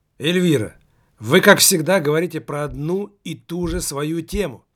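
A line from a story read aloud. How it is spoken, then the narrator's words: Young man's exclamation. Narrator (Russian): воскликнул молодой журналист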